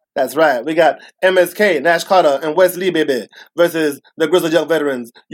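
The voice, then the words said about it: Dusty Rhodes impression. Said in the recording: “Where's the Dusty voice? ... doing the Dusty voice”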